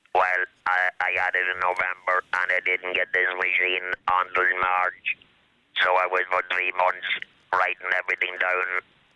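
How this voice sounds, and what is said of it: Regional accent through artificial voice box. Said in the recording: “you still have your accent, have you? It's there somewhere. ... You definitely still have your accent. ... that voice box, which is outside your body”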